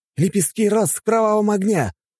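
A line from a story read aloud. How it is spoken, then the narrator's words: Anime-style battle shout. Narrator (Russian): зачем-то закричал он, как в японских мультиках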